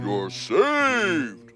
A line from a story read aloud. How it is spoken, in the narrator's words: roared the ox